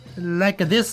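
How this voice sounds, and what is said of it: Put-on Italian accent. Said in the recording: “Can you do a little Italian accent? ... Exactamundo.”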